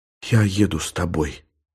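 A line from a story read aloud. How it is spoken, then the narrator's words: Whisper. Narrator (Russian): шепнула Елена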